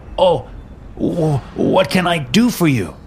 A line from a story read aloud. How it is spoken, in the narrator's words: Giuseppe stammered